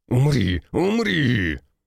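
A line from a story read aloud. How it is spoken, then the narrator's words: Warrior shouting. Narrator (Russian): кричал чернокожий воин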